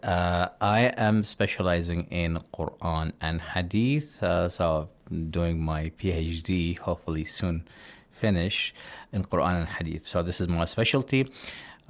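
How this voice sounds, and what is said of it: Australian English accent. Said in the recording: “I am from Australia, as you can tell from my accent.”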